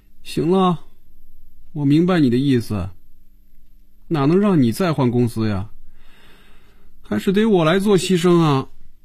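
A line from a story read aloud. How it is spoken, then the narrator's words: Dejected, subdued. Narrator (Chinese): 菲比的眼神暗淡下来，脸上也没了笑容，垂着眼皮说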